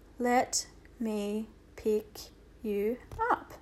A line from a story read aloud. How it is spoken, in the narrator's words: Omri said very slowly